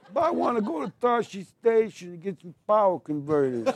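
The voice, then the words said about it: Put-on New York accent. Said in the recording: “There's not a New York on Tatooine.”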